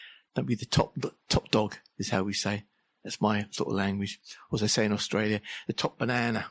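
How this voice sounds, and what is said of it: Usual voice. Nothing is said of it.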